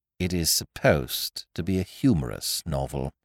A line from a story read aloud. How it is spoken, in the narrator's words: I pointed out coldly